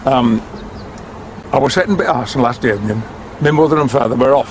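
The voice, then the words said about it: Huddersfield Yorkshire dialect. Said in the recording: “Can you still rustle up a Huddersfield dialect? ... Huddersfield's got a very particular sound to it.”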